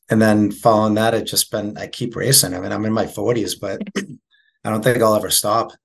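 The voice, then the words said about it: Boston accent. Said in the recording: “I love your accent, the way you said 40s. I can't even do it, but it's such a good accent. ... That's the Boston accent.”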